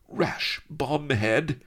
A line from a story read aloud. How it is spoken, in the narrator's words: cried Sheba, her beautiful dusky face contorted, her lashes snapping in alarm